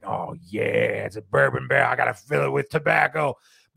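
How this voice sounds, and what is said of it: Not very good impersonation. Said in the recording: “That's not a very good impersonation of Nick.”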